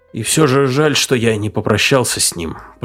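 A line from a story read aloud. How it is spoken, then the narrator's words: Guilty mumble. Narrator (Russian): пробормотал виновато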